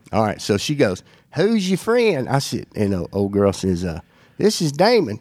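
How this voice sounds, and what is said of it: Strong Southern US accent. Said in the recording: “But you know how strong your accent is? ... People tell me that.”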